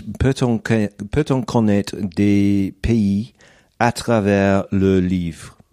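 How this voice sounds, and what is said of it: French-accented speech. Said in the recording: “apologies for the French accent”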